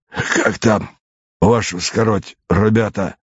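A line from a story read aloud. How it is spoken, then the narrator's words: Hoarse, after barking cough. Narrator (Russian): Первый солдат, должно быть старший, откашлившись хриплым, похожим на собачий лай кашлем, сказал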